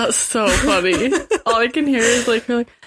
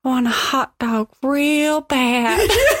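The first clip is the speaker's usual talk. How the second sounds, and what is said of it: Poor imitation of another person's voice. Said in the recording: “That's a terrible impression of her.”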